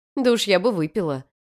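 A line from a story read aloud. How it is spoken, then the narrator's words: Wry snort. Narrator (Russian): хмыкнула в ответ Мария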